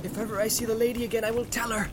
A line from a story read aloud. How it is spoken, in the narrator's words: he cried